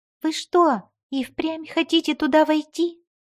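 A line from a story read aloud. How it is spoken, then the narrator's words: Squeaky voice. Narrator (Russian): пискнул он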